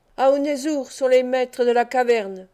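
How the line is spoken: Growling. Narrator (French): gronda le fils de l'Urus

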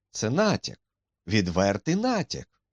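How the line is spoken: Exclaimed. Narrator (Ukrainian): вигукнув Холмс

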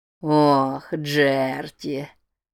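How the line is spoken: Purring. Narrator (Russian): Промурлыкал Норман

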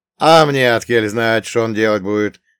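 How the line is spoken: Snorting. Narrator (Russian): хмыкнул Елисей

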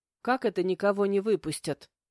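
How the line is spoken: Nervous blurting. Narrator (Russian): выпалила, нервно хмыкнув

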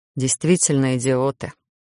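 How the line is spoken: Muffled grumble. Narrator (Russian): буркнул куда-то в волосы Гарон

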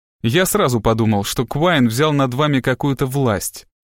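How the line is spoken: Plain. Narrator (Russian): сказал Страйк

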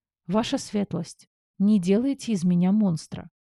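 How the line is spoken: Sincere sighing plea. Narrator (Russian): Вздохнув, попросила от чистого сердца

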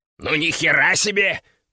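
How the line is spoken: Hiss. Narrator (Russian): прошипел Кеша

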